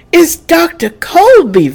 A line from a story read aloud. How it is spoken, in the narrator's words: Vesta cried